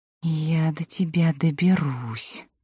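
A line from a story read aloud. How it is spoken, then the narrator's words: Spiteful whisper. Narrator (Russian): злобно прошептала Илина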